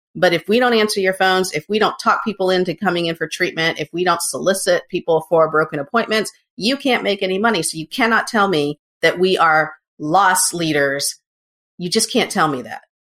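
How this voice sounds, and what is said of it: Yelling, loud ranting voice. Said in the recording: “I'm yelling at you”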